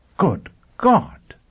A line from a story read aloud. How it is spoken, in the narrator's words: Pristine exclaimed again